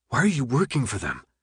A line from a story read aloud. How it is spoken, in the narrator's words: His voice sounded weak to his ears